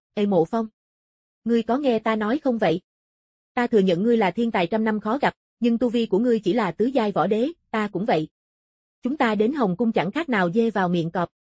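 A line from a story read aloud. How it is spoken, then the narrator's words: Stunned, slightly annoyed. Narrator (Vietnamese): Kim Vô Nguyệt ngẩng người, chợt hơi tức giận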